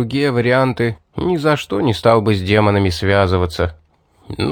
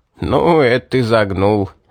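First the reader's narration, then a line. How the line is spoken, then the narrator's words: Laughing. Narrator (Russian): рассмеялся мастер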